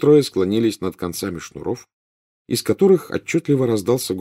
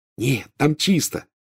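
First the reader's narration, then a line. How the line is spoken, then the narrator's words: Joyful. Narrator (Russian): радостно сообщил Рон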